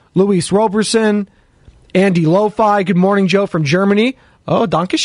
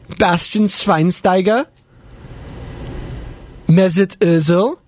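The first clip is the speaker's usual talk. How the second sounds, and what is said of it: Poor put-on German accent. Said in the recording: “I always get into my German accent here ... Let me know how good my accent is there. It's pretty bad.”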